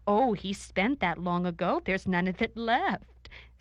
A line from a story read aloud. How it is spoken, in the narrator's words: said the scribe, shaking with laughter